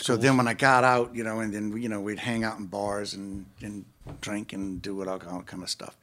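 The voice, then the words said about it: New Orleans accent. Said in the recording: “You're from New Orleans ... You can probably tell with the accent.”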